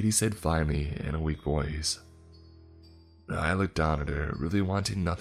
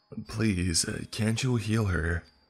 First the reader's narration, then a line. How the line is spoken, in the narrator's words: begged once again